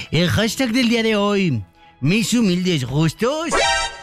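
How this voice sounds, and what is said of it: Put-on altered accent. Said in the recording (Spanish): “Deja cambio mi acento como un poquito más así.”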